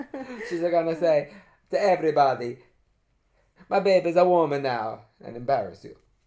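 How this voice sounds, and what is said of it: Put-on Italian accent. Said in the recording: “Why are you talking like this? ... You said he was Italian. ... Your accent is disturbing me.”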